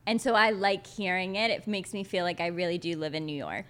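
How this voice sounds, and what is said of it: Long Island tri-state accent. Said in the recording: “you have like a Long Islandish accent. ... Everyone actually always thinks I'm from Jersey. ... you have like a very tri-state area, like similar to me.”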